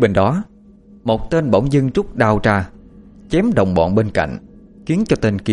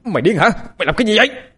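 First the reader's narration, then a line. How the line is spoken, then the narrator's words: Shouting. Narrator (Vietnamese): một tên hét lên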